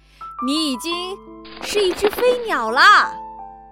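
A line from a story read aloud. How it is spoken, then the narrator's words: Loud. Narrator (Chinese): 爸爸妈妈大声说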